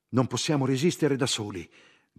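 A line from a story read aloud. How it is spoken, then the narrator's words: Group shouting. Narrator (Italian): gridavano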